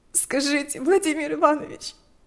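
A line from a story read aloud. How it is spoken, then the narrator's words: Trembling with sobs. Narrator (Russian): вздрагивала от рыданий Лика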